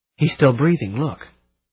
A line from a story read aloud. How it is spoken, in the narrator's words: Mary gave a choked sob, the first honest feminine thing I'd known her to do, and gasped